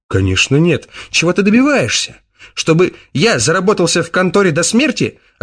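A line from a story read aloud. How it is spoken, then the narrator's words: Snapped. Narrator (Russian): огрызнулся он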